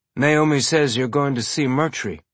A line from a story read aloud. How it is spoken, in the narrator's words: Amos said, keeping his tone carefully neutral